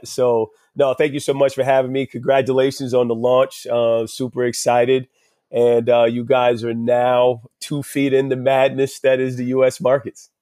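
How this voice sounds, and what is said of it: American New Jersey accent. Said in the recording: “my horrible US accent ... my New Jersey, US accent”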